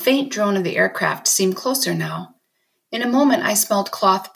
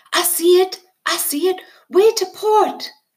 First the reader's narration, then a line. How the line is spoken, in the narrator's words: Timothy yelled